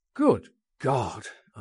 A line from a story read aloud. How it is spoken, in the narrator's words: I exclaimed